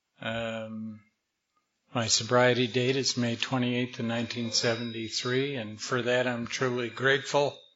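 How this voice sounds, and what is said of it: Slightly hoarse voice. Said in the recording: “I'm a little hoarse ... I start losing my voice”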